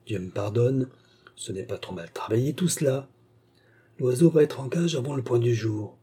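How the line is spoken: Very quiet murmur. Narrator (French): murmura-t-il tout bas

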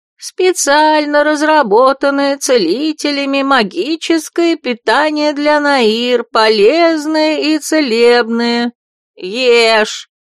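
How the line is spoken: Creaky monotone. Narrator (Russian): проскрипел монотонно голос

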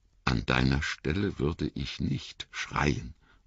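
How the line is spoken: Plain. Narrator (German): sagte Mary

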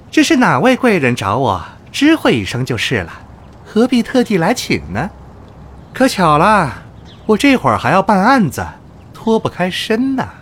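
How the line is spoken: Cheerful but wary. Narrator (Chinese): 福满心里警惕，笑嘻嘻地

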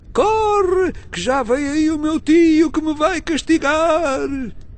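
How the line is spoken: Shouting again. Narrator (Portuguese): o rapaz tornou outra vez a gritar

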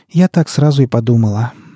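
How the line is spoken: Sighing. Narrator (Russian): вздохнула Лоя

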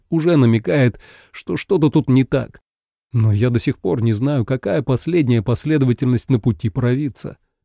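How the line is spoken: Sighing prayer. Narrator (Russian): вздохнул Клейн, взмолившись к богине

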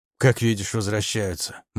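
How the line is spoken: Gloomy. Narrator (Russian): мрачно сказал я

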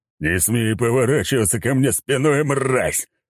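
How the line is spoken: Roaring. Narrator (Russian): взревел Сигизмунд

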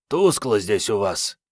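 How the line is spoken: Hoarse rasp. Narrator (Russian): прохрипела Мариетта

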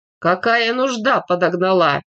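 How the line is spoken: Hoarse question after cough. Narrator (Russian): Он глухо кашлянул, хриплым голосом спросил

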